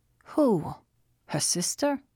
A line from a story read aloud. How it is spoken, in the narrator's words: Rand asked